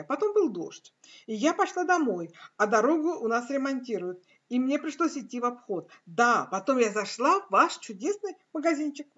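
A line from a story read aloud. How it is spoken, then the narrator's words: Exclaiming. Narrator (Russian): воскликнула я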